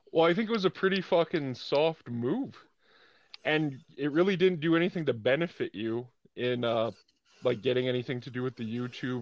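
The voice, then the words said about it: Canadian accent. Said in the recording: “that unmistakable Canadian accent”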